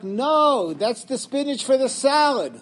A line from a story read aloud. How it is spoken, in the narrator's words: she yelled back